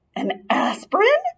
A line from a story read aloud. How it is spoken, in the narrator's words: Ralph's mother gasped